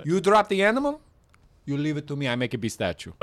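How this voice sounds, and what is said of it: Put-on foreign accent. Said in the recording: “you don't think you can say taxidermy in that accent? ... does accents.”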